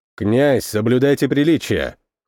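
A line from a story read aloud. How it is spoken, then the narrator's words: Cold, cutting. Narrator (Russian): холодно припечатал Сухой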